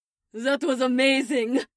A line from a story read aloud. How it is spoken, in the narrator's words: Lizanne called out